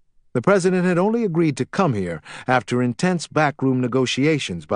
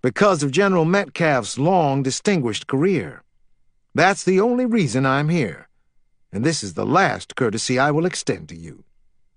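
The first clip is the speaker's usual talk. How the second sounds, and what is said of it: Disdainful Carolina drawl. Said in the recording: “his Carolina drawl thick with disdain.”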